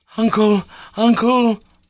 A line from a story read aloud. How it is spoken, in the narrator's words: I cried